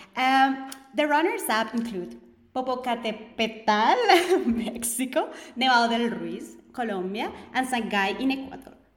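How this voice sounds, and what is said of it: Native-sounding Spanish pronunciation of names. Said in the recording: “you'll say them with a nicer accent than I will ... I wish I could say Reventador the way you say it.”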